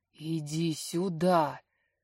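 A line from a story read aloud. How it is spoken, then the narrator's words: Excited hoarse voice. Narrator (Russian): Хриплю возбужденно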